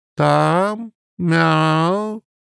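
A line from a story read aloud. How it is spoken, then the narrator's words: Drawn out. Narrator (Russian): протянул Рыжий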